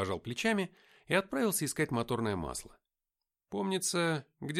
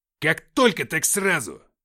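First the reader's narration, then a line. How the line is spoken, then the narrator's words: Barked. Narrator (Russian): рявкнул Филиппыч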